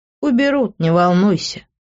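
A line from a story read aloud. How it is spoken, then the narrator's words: Laughing. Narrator (Russian): рассмеялся он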